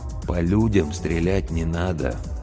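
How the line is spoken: Old man's gentle correction. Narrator (Russian): мягко поправил его старик

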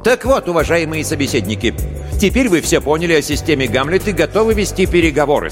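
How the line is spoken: Plain. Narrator (Russian): сказал он

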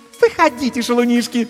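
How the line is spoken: Languid squeal. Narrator (Russian): томно взвизгнула Катисса

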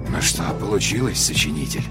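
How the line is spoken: Muttering to himself. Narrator (Russian): пробормотал человек сам себе под нос

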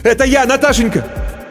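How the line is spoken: Shouting. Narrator (Russian): закричал Иван

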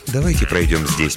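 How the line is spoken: Soft suggestion. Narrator (Russian): мягко предложил он

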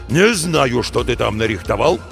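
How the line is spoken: Boss's continued growl. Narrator (Russian): продолжал рычать шеф

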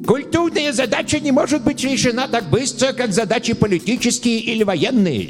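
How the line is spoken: Heavy burr on r's. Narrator (Russian): сильно картавя сказал он

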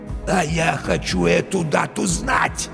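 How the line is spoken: Hoarse wheeze. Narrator (Russian): Барилла просипел

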